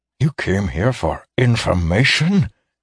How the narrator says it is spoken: gasped Alaris

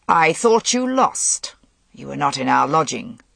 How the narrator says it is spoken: Gaulois said harshly

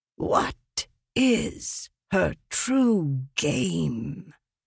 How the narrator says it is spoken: Leshwe whispered to Craving

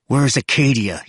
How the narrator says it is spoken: snarled

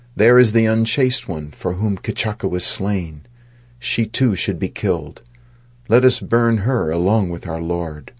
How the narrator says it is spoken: some of them exclaimed

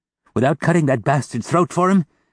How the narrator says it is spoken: gasped Mother Thénardier

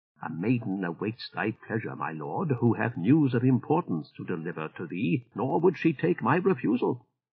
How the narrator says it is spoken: the door-cat Umuyan spoke in his ear softly, saying

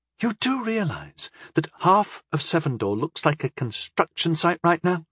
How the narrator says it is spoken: began, anxiously

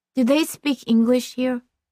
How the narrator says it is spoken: she asked

